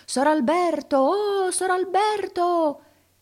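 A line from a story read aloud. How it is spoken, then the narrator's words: Calling loudly through cupped hands. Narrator (Italian): con le mani alla bocca s'urlava per di fiato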